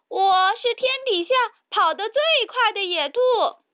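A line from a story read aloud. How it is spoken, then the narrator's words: Loud. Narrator (Chinese): 比利大声说道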